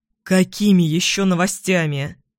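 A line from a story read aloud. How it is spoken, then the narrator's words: Irritated question. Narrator (Russian): Раздраженно спрашиваю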